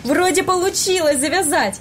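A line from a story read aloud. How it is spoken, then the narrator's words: Joyful exclamation. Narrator (Russian): радостно воскликнул Илья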